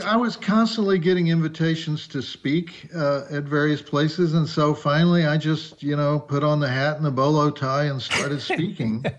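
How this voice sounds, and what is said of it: Southern US accent. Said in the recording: “I do have a Southern accent. Unfortunately, I am from Texas.”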